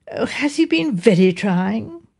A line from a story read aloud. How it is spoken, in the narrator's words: My wife said in a sympathetic voice